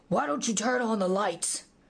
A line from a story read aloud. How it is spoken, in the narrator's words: demanded irritably after he barked his shin